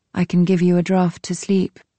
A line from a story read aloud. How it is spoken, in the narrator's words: I said